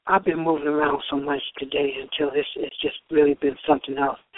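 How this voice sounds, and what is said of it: Tired, worn-out voice. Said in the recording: “forgive my voice. I'm a little wore out.”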